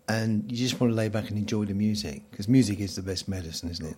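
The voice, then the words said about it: Mellow, relaxed radio voice. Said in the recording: “you've got a lovely voice ... For radio voice ... he's got a radio voice ... I like to sort of just keep it mellow and chilled ... Take it nice and easy, nice and slow”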